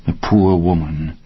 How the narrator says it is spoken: the writer's wife murmured

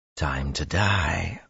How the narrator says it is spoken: Luz Theron whispered

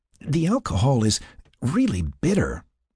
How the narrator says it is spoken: she exclaimed as her face puckered

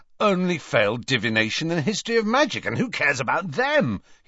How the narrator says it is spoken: he said happily to Harry

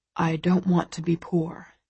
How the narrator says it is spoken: he says, his voice low

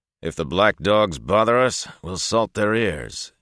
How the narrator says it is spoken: he announced in a loud and hearty voice

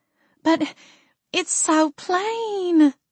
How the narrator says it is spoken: Mama whined

